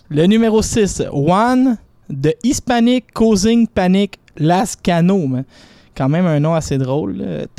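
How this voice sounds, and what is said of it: Quebec French accent speaking English. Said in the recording (French): “quand je parle en anglais, c'est toujours très drôle mon accent ... L'accent de la rue Rosemont”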